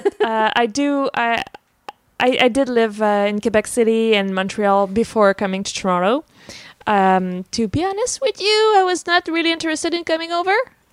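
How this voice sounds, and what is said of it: Slight accent. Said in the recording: “apparently I have a slight accent.”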